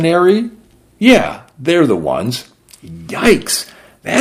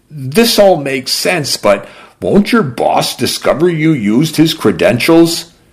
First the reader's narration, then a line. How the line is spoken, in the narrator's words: She laughed a bitter croak